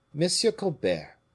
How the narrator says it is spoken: said the king very sharply

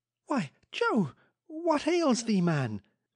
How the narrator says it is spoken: cried the usually incurious Mrs

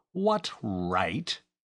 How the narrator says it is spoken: he added in an aggrieved tone

